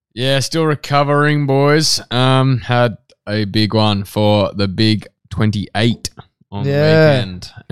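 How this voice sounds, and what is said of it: Slightly hoarse voice. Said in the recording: “the voice is a bit hoarse still”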